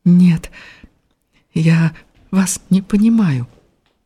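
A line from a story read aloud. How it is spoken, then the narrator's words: Timid. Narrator (Russian): Она робко взглянула на него и сказала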